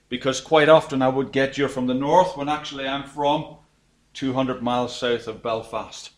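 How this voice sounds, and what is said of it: Southern Irish accent. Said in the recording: “I'm Irish, as you probably can pick up from my accent. ... I'm a good Southern Irish person”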